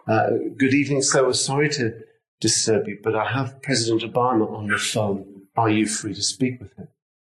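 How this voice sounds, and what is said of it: Put-on American accent, nice-sounding. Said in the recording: “a very nice sounding lady with an American accent”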